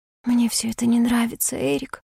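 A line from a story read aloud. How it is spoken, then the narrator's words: Whispered. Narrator (Russian): прошептала я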